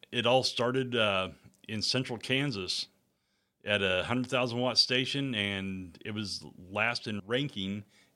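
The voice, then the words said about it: Smooth radio announcer voice. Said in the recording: “you have a radio voice.”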